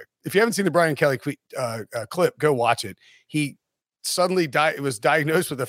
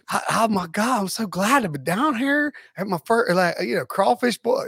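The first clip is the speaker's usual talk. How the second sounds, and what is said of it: Fake Southern accent, Brian Kelly. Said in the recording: “He's like Brian Kelly ... a fake Southern accent”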